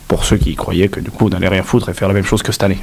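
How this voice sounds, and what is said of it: Very strong regional French accent. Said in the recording (French): “T'as quand même un accent de malade. ... on amène le patrimoine de vos gens à la radio”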